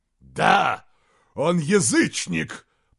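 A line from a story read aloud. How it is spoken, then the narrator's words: Growl. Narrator (Russian): прорычал Изгримнур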